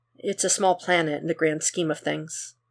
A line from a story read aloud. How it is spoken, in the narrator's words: Superman says softly